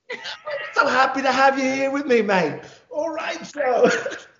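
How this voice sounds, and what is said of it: Poor put-on English accent. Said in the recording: “for all of my English friends viewing, I'm sorry. I can't have a good accent.”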